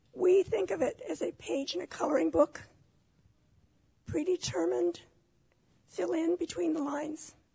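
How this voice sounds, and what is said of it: Failing, strained voice. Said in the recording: “my voice isn't working”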